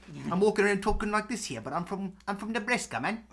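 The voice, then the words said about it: Put-on South African accent. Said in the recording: “you have the accent of where it's from ... I got the South African strain, man.”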